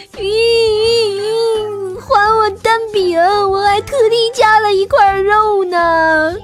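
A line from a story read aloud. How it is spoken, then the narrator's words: Crying while speaking. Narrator (Chinese): 苏妈妈一边哭一边说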